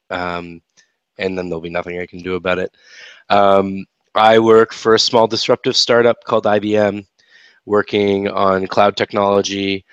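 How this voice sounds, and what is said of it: Slightly raspy voice from a cold. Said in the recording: “I have a bit of a cold, so my voice is a little raspier than normal”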